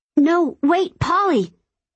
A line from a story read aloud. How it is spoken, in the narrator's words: I yell into the phone